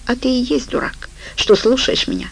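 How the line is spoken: Gloomy. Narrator (Russian): ответила она мрачно

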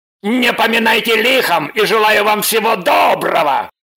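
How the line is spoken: Male shouting. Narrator (Russian): крикнул он

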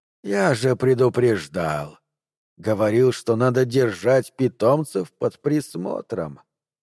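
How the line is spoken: Hissing, barely restrained anger. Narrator (Russian): звук, похожий то ли на шипение пара, то ли на выдох того, кто с трудом сдерживает гнев

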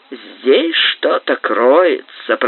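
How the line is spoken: Muttered through clenched teeth. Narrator (Russian): пробормотал он сквозь зубы

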